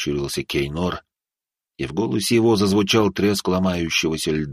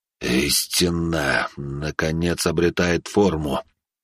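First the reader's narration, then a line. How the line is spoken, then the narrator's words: Slow, measured. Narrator (Russian): медленно произнес пламенеподобный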